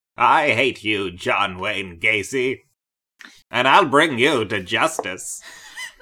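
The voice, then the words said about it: Katharine Hepburn impression. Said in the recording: “the one good impression I could do was Katharine Hepburn”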